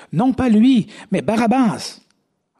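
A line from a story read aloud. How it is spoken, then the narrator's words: Crowd shouting again. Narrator (French): de nouveau, tous s'écrièrent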